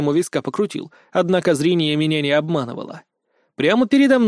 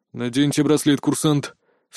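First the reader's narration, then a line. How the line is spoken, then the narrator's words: Tense commanding voice. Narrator (Russian): все таким же напряженным голосом велел стоящий в коридоре Лен де Орн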